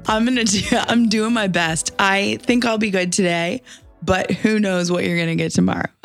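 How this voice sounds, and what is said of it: Hoarse voice. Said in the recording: “I'm not the one with the hoarse voice, that it's ... It doesn't sound like you at all”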